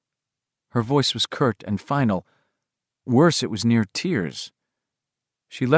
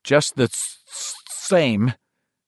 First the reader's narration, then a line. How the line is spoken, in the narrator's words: Bill said in a troubled voice